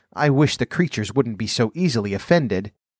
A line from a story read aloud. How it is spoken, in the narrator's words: pleaded poor Alice in a piteous tone